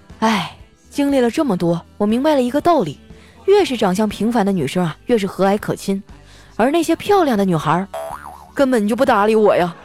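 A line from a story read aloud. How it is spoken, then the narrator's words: Sighing. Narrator (Chinese): 小黑呀就叹了一口气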